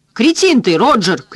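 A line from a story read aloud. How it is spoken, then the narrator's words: Shouted. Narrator (Russian): крикнул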